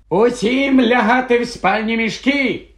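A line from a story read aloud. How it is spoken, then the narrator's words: Shout. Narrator (Ukrainian): крикнув Персі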